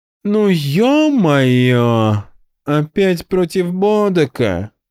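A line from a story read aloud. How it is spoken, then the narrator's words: Groaning. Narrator (Russian): застонал Эстир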